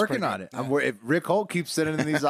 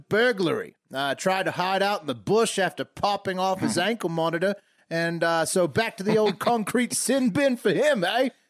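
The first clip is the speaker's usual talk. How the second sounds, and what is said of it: Put-on Australian accent. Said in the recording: “Your accent's getting good ... these Australian stories”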